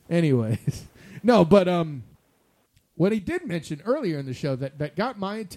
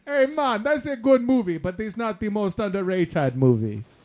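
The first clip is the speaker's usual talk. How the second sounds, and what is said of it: Bad put-on island accent. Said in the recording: “If my island accent sucks ... It was really bad, actually. I have better accents I could pull from, but yeah, man, that was really horrible.”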